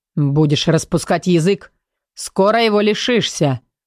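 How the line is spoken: Menacing warning. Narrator (Russian): грозно предупредил команда

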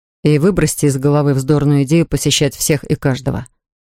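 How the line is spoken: Plain. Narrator (Russian): сказал я

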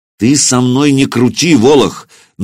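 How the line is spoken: Angry, through gritted teeth. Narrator (Russian): наливаясь гневом, процедил Сергей Иванович

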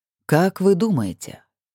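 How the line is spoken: Suddenly calm question. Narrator (Russian): Внезапно совершенно спокойно спросил Эрта

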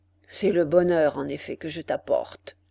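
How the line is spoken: Man's muffled voice. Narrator (French): dit l'homme d'une voix sourde

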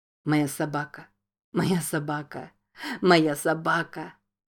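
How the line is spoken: Laughing and crying. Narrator (Russian): Смеясь и плача, повторял Джейк

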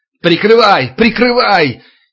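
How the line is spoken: Yelling at top of lungs. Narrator (Russian): Егоров орал во все горло

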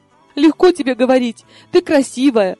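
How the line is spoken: Tearful sniffling. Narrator (Russian): Сквозь слезы прохлюпала я

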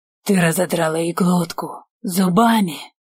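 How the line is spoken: Admiring hoarse wheeze. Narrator (Russian): восхищенно прохрипел я

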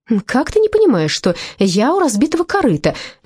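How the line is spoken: Sudden exclamation. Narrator (Russian): неожиданно воскликнула подруга

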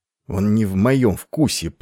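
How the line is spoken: Through gritted teeth. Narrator (Russian): процедил Айвин сквозь зубы

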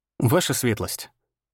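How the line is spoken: Calm. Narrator (Russian): сказал спокойно

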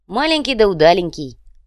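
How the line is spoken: Amused grunt. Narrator (Russian): брат Ляпсус хмыкнул

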